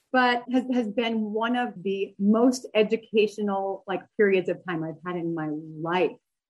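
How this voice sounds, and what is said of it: Teary, wavering voice. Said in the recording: “I'm going to get a little teary... you hear the wavering in my voice.”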